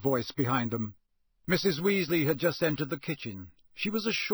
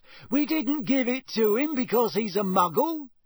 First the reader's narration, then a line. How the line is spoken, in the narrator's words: said Fred indignantly